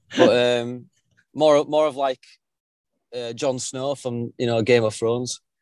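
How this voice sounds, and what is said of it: English accent. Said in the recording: “We haven't had any English guests this season, and so it's great to hear the accent.”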